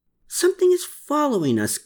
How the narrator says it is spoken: gasped Klaus

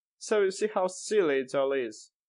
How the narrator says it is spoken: he laughed

